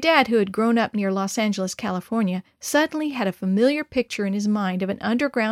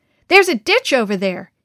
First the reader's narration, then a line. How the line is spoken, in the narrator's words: cried out